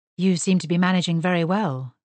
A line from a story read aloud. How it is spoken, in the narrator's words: he said